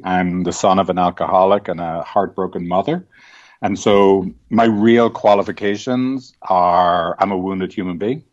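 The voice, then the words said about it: Irish accent. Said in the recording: “still having the accent from Ireland”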